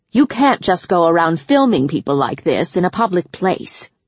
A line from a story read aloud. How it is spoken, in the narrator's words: the man growled